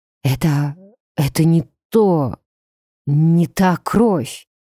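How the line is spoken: Hoarse, coughing. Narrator (Russian): прохрипел вампир, судорожно откашливаясь

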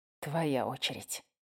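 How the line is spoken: Tense voice. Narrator (Russian): напряженным голосом произнес

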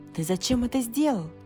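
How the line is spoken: Exclaiming. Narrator (Russian): воскликнула она

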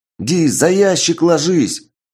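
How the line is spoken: Yelled. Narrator (Russian): заорал Карат

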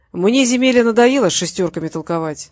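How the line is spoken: Plain. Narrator (Russian): сказал Васильев

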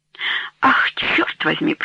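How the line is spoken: Whisper. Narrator (Russian): прошептал

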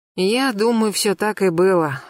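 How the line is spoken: Sighing. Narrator (Russian): вздохнула Марьяна

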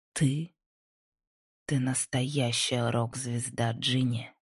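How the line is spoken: Hoarse drunken whisper. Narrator (Russian): хрипло прошептала Лайза, пьяно улыбнувшись

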